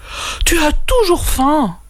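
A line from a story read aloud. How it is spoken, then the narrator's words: Sigh. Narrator (French): soupira Kaou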